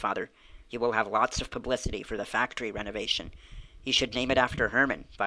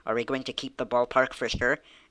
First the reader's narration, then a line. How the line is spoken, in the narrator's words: Emily asked eagerly